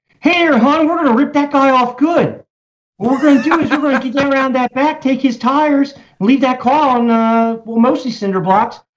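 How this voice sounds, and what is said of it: Baltimore accent. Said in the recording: “I've got the Baltimore accent. Like, if you were to do it, it's like, I got to move my jaw around in order to get it right ... that's the Baltimore accent”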